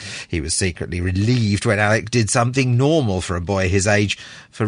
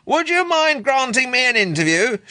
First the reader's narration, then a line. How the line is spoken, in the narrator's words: shouted Lewin